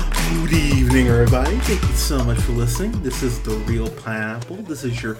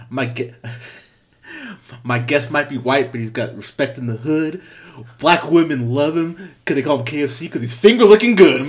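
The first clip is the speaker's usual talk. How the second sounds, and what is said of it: Imitates a film character's voice. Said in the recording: “I'm going to do my best Dolemite impression”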